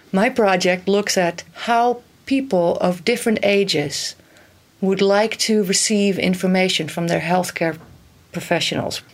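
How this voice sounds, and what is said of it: Mixed Dutch and American accent. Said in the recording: “a mix of Dutch and American accent”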